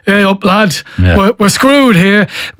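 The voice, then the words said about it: Northern English impression. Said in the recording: “that northern ... I'm doing a Mick McCarthy impression”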